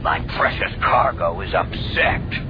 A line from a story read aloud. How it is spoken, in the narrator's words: Jabba grumbled